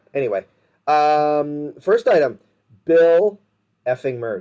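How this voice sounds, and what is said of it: Excited raised voice. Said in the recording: “I kind of just raised my voice... More in excitement than in rage... That was my wow. That sounded like a horse.”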